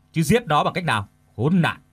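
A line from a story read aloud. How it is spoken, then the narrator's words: Angry snap. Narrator (Vietnamese): Hai Thành giận dữ gắt lại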